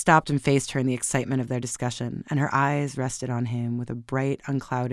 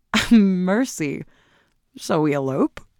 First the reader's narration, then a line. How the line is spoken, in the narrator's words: she laughed